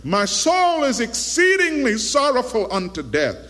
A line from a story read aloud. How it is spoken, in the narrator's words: In desperation, he cried out